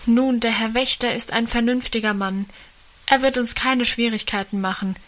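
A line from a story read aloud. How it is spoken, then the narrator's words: Called out. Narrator (German): rief einer von ihnen dem Vater entgegen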